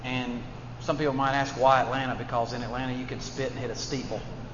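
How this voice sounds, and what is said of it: Alabama Southern accent. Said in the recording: “As you can tell from my accent, ... I'm from Birmingham, Alabama”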